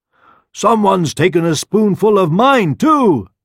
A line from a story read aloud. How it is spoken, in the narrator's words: exclaimed the mother bear